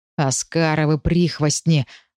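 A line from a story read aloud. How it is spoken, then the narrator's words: Growling under breath. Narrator (Russian): рыкнув под нос, Дамир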